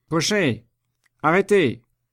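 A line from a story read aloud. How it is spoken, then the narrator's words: Shouted. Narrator (French): cria Chaise-Martin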